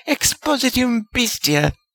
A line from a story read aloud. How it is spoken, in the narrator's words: a gleeful voice from the entryway they had come by shrieked